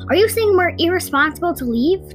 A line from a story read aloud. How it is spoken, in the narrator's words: Tall Shadow snapped back at him